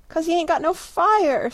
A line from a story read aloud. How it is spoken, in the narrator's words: sobbed Daisy